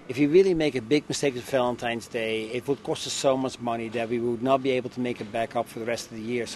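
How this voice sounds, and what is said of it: Dutch accent. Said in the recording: “Perhaps you can tell from the accent, ... grew up in Holland.”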